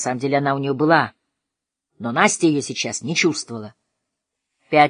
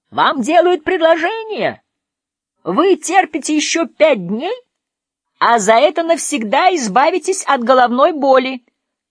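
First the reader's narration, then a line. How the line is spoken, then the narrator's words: Shouting over thunder. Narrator (Russian): прокричал, перекрывая грохот грома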